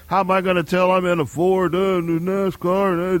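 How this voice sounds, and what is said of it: Imitates another person's voice. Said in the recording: “What driver was that you're imitating? ... Mo's. ... Mo's Johnson.”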